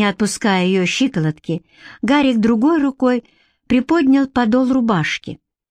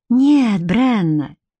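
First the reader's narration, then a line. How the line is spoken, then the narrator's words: Soft reply. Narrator (Russian): мягко ответил он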